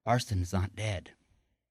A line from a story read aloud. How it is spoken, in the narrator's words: She said quietly to him